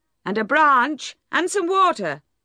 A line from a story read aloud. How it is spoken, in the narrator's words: cried Gabriel